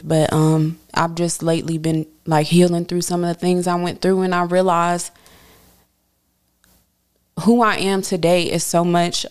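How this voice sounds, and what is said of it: Emotional, choked-up voice. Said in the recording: “I don't know why I'm getting emotional. I'm very emotional.”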